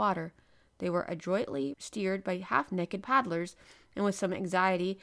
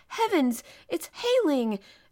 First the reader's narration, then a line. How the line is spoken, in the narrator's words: exclaimed Conseil